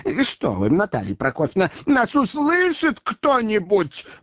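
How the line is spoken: Pleading yell. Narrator (Russian): моляще орал Боров

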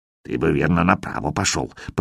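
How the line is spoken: Muttering. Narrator (Russian): пробормотал Хавчик

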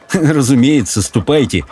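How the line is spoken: Laughing young man. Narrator (Russian): рассмеялся умопомрачительный юноша

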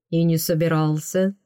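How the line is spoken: Snort, flirtatious admission. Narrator (Russian): он хмыкнул и кокетливо признался

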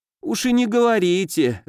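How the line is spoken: Moaning hostess. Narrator (Russian): застонала хозяйка

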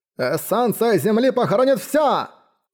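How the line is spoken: Shout. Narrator (Russian): закричал практик

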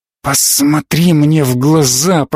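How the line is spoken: Hoarse rasp. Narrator (Russian): прохрипела она

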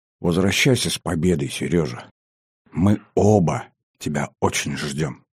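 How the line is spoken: Sad, tender, barely audible. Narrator (Russian): грустно согласилась девушка, с нежностью, чуть слышно добавила

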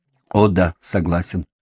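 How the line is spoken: Plain. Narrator (Russian): ответил он

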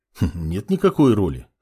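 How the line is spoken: Snorting mage. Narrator (Russian): хмыкнул маг

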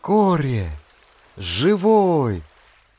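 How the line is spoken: Joyful young man's shout. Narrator (Russian): радостно вскричал молодой мореход

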